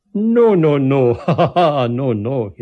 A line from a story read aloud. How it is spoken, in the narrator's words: he laughed